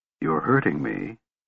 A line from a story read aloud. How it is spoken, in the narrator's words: Kit whispered softly